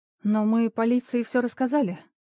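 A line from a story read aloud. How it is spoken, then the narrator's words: Weary. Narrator (Russian): устало произнесла Наталья Ливоновна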